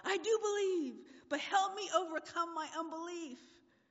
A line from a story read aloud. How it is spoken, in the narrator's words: the father instantly cried out